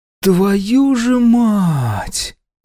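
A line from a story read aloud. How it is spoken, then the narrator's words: Disbelieving groan. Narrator (Russian): простонал я, неверяще разглядывая дату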